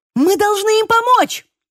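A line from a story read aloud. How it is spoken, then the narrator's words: Shouted. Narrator (Russian): крикнула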